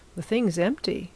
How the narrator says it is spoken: said Spargo

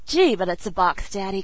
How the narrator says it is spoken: cried the laughing girl

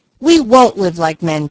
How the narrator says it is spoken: cried both boys

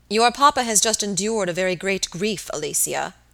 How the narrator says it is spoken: the young man said gravely

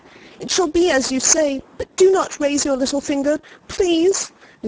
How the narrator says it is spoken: cried

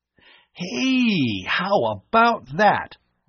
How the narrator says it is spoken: Bud exclaimed happily

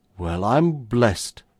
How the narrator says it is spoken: exclaimed the chief constable once again

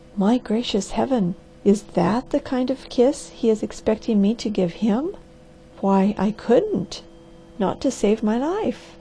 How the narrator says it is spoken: she whispered in an awed voice

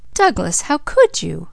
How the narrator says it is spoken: exclaimed Leslie

